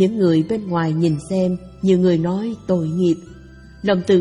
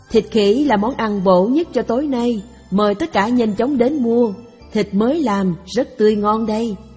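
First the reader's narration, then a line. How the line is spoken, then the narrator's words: Loud hawking call. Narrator (Vietnamese): lớn tiếng rao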